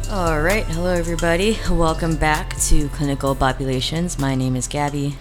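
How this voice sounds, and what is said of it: Slightly strained, worn-out voice. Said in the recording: “My voice is a little gone because I just played a wedding.”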